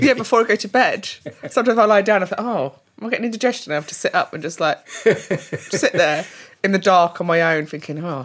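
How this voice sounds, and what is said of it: North London accent. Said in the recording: “your North London accent”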